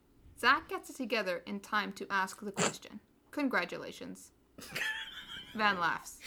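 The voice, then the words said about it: Flat deadpan delivery. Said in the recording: “deadpan congratulations! ... The deadpan is just the best. ... Unintentional deadpan.”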